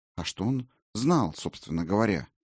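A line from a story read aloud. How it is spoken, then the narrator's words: Sudden quiet question. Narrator (Russian): вдруг тихонько спросила Сигрлин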